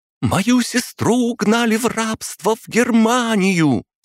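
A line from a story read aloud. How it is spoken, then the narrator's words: Shouting. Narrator (Russian): закричала Галина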